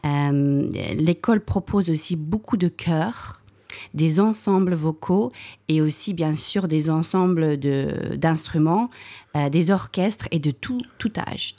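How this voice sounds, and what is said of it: Slight South African accent in French. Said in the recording (French): “vous avez un petit accent ... Vous êtes originaire d'Afrique du Sud”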